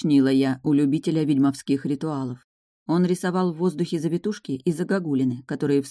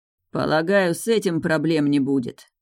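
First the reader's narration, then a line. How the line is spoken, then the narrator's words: Grim smirk. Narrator (Russian): мрачно усмехнулся Эйрин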